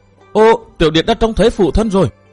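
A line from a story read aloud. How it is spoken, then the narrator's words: Excited exclamation. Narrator (Vietnamese): Cố Kiếm Nam reo lên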